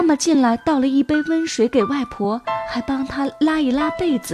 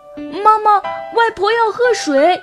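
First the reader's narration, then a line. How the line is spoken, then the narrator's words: Child calling urgently. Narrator (Chinese): 小乐……叫妈妈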